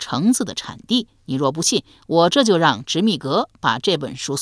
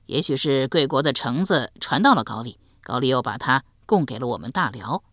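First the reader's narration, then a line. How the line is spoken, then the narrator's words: Awkward, embarrassed laugh. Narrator (Chinese): 韩起讪讪一笑，道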